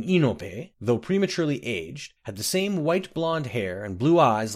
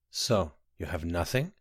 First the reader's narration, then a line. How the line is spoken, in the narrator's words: asked Eslav gently